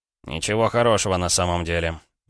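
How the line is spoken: Gloomy reply. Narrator (Russian): мрачно ответил Краснов

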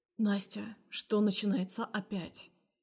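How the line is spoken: Quiet question. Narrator (Russian): спрашивает тихо

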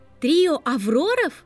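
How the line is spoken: Oddly joyful voice. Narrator (Russian): произнесла Гермиона странно радостным голосом

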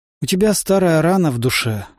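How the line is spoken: Sighing. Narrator (Russian): вздохнул я

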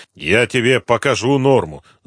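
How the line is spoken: Said angrily. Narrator (Russian): зло сказал Коклюшный

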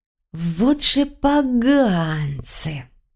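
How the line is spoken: Silent inner drawl. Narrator (Russian): протянула мысленно я

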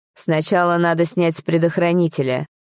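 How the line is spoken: Rough, curt. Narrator (Russian): грубо бросил он

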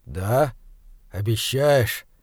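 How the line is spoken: Quiet. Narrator (Russian): тихо сказал Хорза

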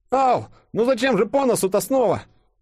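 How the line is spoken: Babbling. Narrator (Russian): пролепетал Денис

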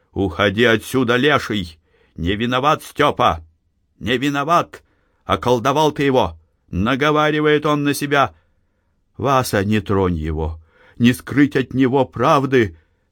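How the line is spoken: Shout. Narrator (Russian): она крикнула деду Фишке

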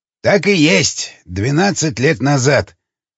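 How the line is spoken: Grunt. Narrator (Russian): хмыкнул Жуковский

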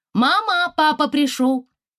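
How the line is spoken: Shout. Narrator (Russian): крикнула

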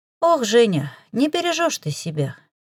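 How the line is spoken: Heavy sigh, regretful. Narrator (Russian): Тетя тяжело вздохнула, но в голосе ее уже не слышалось никакого порицания, только сожаление от предстоящей разлуки

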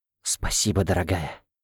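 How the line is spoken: Warm whisper. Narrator (Russian): с искренним теплом в голосе, прошептал глава рода Князевых

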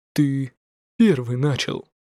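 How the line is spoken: Cold reply. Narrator (Russian): Холодно ответил Лин Цзянь

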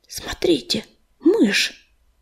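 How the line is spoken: Whisper. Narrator (Russian): прошептала она

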